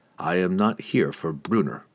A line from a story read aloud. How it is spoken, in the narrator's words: he explained evenly